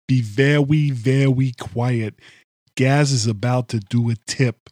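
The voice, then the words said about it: Cartoon hunter voice, heavy Austrian accent. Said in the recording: “Arnold Schwarzenegger doing an impression of Elmer Fudd ... It's so sounded like Arnold Schwarzenegger doing Elmer”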